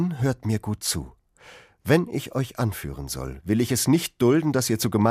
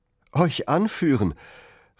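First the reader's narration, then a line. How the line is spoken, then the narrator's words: Calling out. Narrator (German): rief Robin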